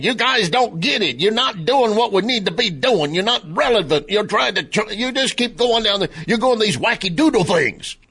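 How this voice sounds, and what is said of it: Imitated Louisiana Cajun accent. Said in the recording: “in his Louisiana Cajun accent ... my impression of Carville”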